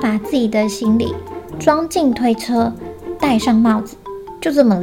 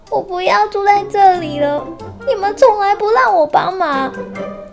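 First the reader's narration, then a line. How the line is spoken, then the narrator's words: Sad duckling crying. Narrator (Chinese): 小鸭很难过，哭着说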